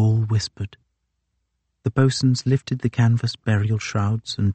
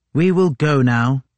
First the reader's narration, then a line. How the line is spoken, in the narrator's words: he said firmly